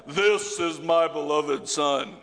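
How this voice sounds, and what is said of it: Deep booming voice of God. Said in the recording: “because you know he's got to have a deep voice,”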